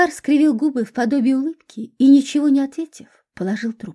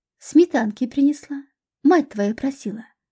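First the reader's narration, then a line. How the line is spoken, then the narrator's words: Plain. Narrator (Russian): ответила ему девушка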